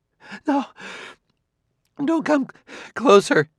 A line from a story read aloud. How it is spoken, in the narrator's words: begged